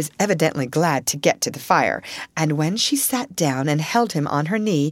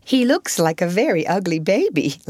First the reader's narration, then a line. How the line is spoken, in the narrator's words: laughed Sarah